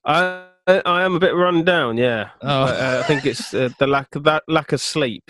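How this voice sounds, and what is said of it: Deeper, congested, tired-sounding voice. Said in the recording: “sounds like you got a cold ... My voice is probably a bit deeper from it ... I'm just tired”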